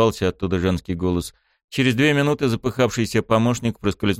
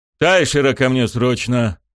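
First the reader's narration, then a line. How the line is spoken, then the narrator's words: Barked into intercom. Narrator (Russian): рявкнул в селектор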